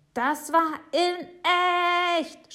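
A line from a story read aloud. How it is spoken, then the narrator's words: Shout. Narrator (German): schreit Jonathan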